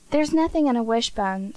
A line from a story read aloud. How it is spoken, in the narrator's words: said Dan impatiently